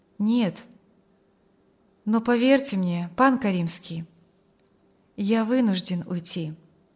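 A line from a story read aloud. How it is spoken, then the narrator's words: Calm objection, young man. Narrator (Russian): возразил юноша спокойно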